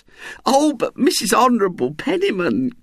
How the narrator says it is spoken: cried Mrs

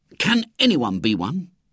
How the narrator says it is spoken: said eagerly

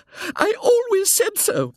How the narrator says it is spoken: panted the lady hysterically

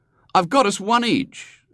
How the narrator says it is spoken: said William cheerfully

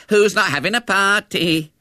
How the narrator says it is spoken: they jeered

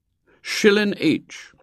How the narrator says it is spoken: said firmly

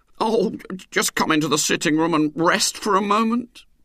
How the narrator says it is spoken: pleaded Mr

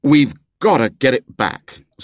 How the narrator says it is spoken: said William firmly

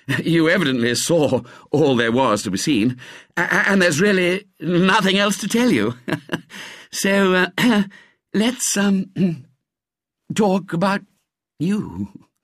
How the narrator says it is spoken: he said, with a modest little laugh

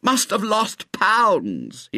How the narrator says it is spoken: he moaned

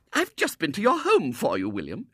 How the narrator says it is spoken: she exclaimed

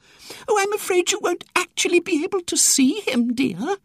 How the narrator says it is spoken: said Miss Tressider sadly

